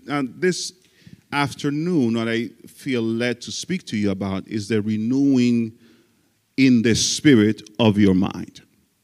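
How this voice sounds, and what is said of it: Speaker with a noticeable accent. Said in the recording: “I do have an accent as you have as you are hearing”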